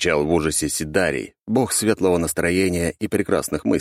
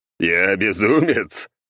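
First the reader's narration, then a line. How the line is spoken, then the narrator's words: Loud laughter. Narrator (Russian): захохотал неназываемый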